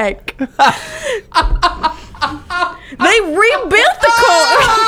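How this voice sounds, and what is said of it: Usual voice. Nothing is said of it.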